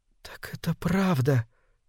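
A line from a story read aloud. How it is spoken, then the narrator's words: Whisper. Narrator (Russian): прошептала она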